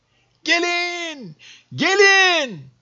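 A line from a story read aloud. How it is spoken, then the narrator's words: Group shouting. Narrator (Turkish): diye bağırıyorlardı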